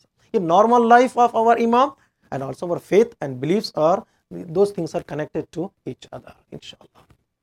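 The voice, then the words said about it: Loud, shouting delivery. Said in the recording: “I'm shouting.”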